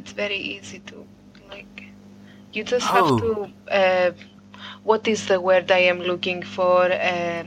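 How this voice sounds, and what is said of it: Put-on Greek accent in English. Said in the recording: “I can definitely do a Greek-speaking English accent, because that's super easy ... speak very lightly ... slowly ... Like generic foreign.”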